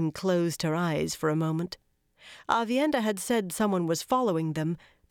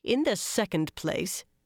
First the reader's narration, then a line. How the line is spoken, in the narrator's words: Brigida went on grimly